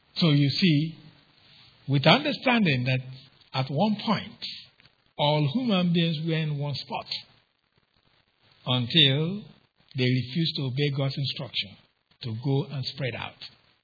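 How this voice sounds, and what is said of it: Noticeable non-native English accent. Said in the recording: “I speak with an accent to you. Some of you have problem understanding me ... my accent”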